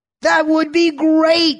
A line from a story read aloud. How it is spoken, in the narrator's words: Ebed shouted, jumping up